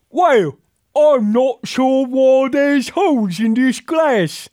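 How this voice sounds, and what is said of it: Exaggerated mock English accent. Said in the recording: “The terribly insulting and probably, you know, non-politically correct depiction of English folk ... It's an accent.”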